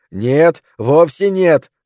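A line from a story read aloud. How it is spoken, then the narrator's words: Yelling. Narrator (Russian): орал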